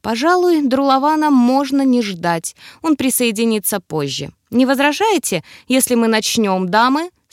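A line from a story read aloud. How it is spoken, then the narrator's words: Plain. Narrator (Russian): спросил Эмерс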